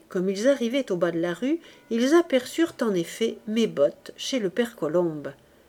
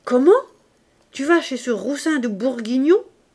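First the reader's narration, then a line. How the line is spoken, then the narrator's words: Shouted. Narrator (French): cria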